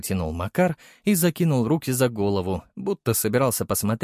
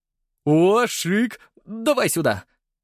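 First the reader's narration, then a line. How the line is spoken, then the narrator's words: Pleased tone. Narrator (Russian): довольным тоном сказал Леха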